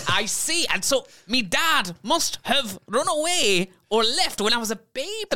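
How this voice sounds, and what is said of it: Character with thick Scottish accent. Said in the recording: “Such a thick Scottish accent ... do you have a thick Scottish accent? ... I do! Can't you hear it?”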